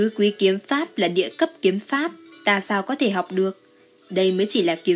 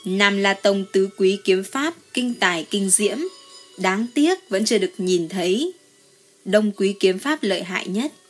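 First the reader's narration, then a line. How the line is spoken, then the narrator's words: Smiling. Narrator (Vietnamese): Diệp Trần mỉm cười nói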